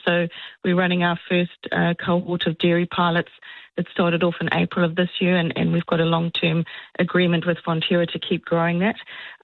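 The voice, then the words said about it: South African accent. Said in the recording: “There's a wee accent happening there ... Is that like South African? ... It is, yes. Born and bred in South Africa”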